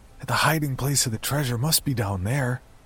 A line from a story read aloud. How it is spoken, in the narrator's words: I blurted out